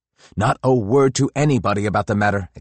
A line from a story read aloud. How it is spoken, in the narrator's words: exclaims Peter with unusual emphasis